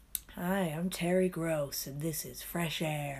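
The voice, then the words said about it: Imitates an American radio host. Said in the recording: “That's a really good impression”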